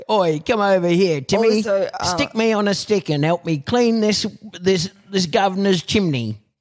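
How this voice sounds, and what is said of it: Bad put-on street urchin accent. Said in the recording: “it might be the worst accent I've ever done.”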